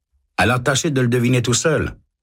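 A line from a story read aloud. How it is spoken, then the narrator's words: Curt man. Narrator (French): répond l'homme sèchement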